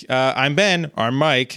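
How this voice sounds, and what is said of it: Imitates another person's voice. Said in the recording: “That's my Mike impression.”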